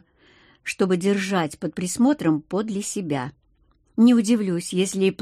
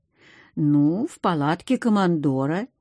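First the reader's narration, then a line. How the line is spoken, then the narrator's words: Uncertain young man. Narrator (Russian): неуверенно ответил парень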